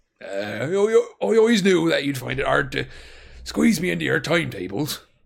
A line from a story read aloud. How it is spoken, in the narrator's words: he said gruffly